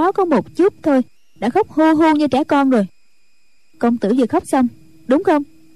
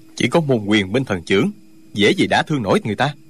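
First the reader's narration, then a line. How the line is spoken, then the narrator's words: Cold. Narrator (Vietnamese): Trương Du Kỵ lạnh lùng nói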